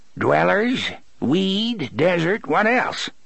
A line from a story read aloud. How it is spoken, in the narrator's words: He cackled